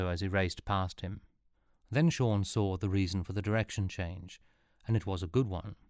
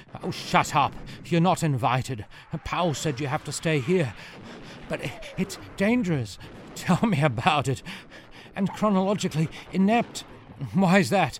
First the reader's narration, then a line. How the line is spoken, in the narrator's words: gasped the just as unfit body Stinto was occupying